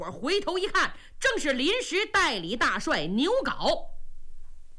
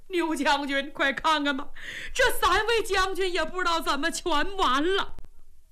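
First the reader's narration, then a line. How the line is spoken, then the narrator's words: Loud wailing. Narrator (Chinese): 军兵放声大哭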